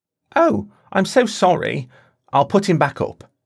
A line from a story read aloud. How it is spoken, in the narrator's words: she said